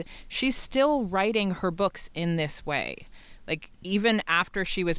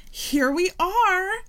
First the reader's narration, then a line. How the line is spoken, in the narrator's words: my mother squeals